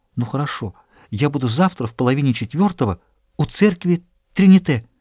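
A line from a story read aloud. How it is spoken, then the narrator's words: Quick hesitant confused whisper. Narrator (Russian): Она колебалась, окончательно растерявшись, она быстро прошептала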